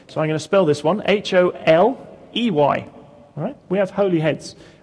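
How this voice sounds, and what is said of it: Speaks with a noticeable accent. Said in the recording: “some of you have difficulty understanding my accent”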